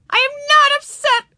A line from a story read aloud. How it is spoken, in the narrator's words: yelled Ramona